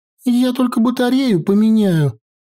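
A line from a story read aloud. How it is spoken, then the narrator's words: Joyful, excited. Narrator (Russian): сказала Наташка с радостно загоревшимися глазами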